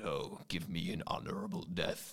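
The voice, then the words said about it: Good impression of a game character. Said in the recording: “That's a good impression.”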